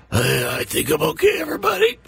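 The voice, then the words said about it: Impression of a co-host. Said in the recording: “let me do an impression of Chris when something happens in the break”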